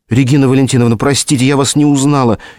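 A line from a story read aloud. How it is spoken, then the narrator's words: Frightened rustling whisper. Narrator (Russian): испуганно шелестела губами горничная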